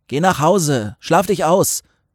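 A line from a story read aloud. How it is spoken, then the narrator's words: Call. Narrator (German): rief Till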